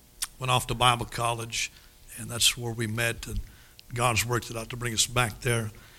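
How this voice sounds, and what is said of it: Northern Minnesota accent. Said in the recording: “Don't try to figure out my accent. I'm from northern Minnesota.”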